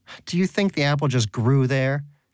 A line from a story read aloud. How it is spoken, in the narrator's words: Donut shouted